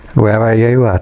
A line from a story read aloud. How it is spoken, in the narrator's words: said